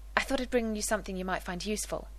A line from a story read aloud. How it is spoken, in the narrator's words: he said quickly